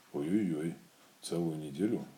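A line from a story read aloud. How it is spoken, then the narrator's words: Sad. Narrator (Russian): грустно сказал Пух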